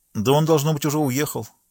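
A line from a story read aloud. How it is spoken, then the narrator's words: Exclaimed. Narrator (Russian): воскликнул Жюли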